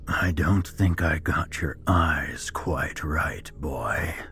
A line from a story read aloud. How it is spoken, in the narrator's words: he mocked in a raspy voice